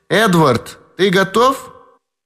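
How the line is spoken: Shout. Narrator (Russian): крикнула

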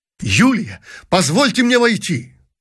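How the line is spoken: Exclaiming prince. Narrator (Russian): воскликнул князь

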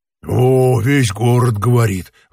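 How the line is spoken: Sighed. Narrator (Russian): вздохнул другой

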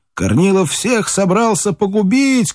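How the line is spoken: Crowd shouting. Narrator (Russian): кричали по городу

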